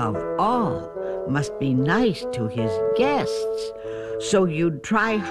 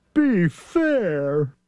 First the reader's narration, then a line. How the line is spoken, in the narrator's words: Thidwick begged with a lump in his throat